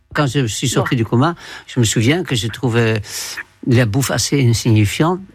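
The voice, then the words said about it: Man speaking with a noticeable accent. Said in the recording (French): “il y a un accent qui peut vous mettre sur la voie”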